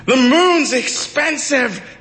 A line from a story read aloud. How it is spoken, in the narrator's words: the people yelled back at her